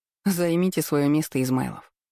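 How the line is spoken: Amused snort, hiding smile. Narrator (Russian): фыркнула я в ответ, стараясь спрятать улыбку

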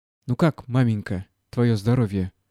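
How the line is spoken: Unsteady voice question. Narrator (Russian): спросил неровным голосом Гордей Евстратыч

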